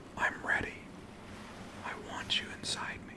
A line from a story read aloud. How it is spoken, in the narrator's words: you whispered